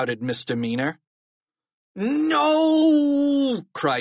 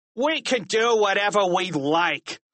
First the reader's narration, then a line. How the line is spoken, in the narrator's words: snarled Misdemeanor